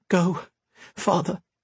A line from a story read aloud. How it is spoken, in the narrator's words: she said, her voice trembling